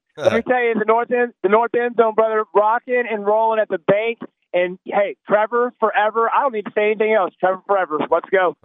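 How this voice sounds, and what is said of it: Hoarse, nearly lost voice. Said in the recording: “Got no voice ... a lot of guys today dealing with some laryngitis”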